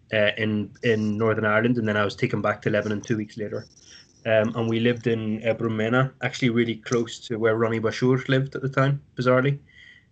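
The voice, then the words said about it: Northern Irish accent. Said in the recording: “Northern Irish accent”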